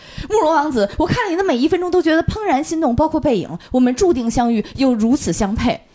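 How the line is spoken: Lovestruck calling. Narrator (Chinese): 九天龙女在花痴的喊

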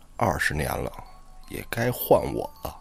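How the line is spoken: Soft voice. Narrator (Chinese): 轻声的说

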